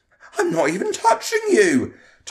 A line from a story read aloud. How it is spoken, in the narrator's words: Tom exclaimed, sounding hurt at being falsely accused